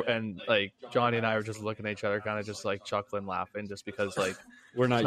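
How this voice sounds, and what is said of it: Usual voice. Nothing is said of it.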